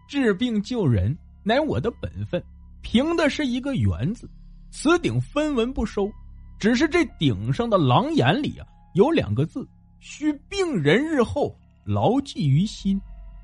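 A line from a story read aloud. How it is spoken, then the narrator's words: Hearty laugh, old priest. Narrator (Chinese): 老道不由哈哈大笑说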